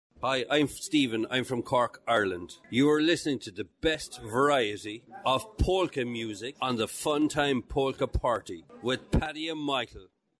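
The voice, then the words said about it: Irish accent. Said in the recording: “I love their accent ... From Ireland ... A wee bit a little Irish.”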